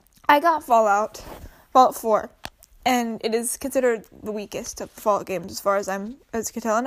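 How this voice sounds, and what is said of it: Congested, sniffly voice. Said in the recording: “I have a cold, so I'm going to be sniffling a bit”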